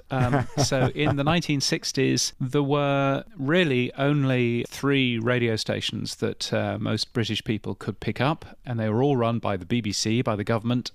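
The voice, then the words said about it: British accent. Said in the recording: “I'm a Brit, as you can tell from my ridiculously aloof accent.”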